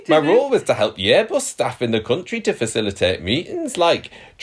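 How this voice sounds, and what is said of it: Attempted Geordie accent, not convincing. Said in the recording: “I wanted to test out my Geordie accent on the podcast ... I can't do a Geordie accent ... I did a better job last night”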